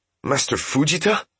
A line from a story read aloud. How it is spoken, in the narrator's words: Seki said breathlessly